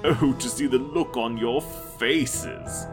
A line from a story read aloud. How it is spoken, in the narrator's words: laughed, wiping tears from the corner of his eyes